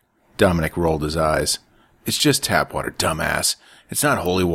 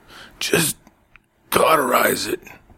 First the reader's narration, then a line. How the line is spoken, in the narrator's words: he said weakly